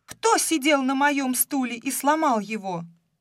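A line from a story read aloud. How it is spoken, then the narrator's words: Shout. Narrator (Russian): Мишка закричал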